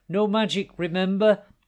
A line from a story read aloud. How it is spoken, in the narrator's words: He turned his head to shout